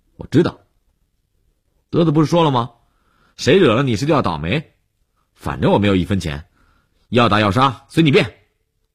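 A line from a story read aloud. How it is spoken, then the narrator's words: Defiant loud interruption. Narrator (Chinese): 悠悠无欲则刚地瞪着眼睛，放大声音打断了李文海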